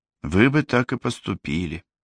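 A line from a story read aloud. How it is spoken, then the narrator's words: Sighing. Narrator (Russian): вздохнула Ева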